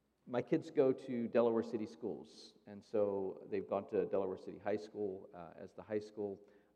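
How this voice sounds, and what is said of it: Hoarse, strained voice. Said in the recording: “why my voice sounds like this. So I apologize. I screamed my head off Friday night”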